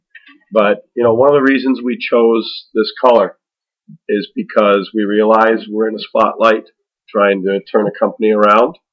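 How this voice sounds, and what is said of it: Gravelly, hoarse voice. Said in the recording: “my voice is a little bit more gravelly than usual. I just getting over a cold.”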